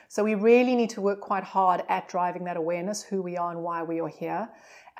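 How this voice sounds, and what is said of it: Non-local accent. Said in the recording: “you're not originally from this part of the world with your accent”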